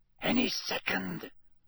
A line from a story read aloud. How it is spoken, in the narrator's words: Lee Jordan whispered